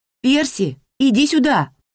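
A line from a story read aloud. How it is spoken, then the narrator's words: Shouted through mouthful of pins. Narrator (Russian): прокричала Дороти, не вынимая изо рта булавок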